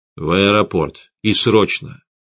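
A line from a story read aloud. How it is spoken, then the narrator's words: Grim. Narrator (Russian): мрачно сказал я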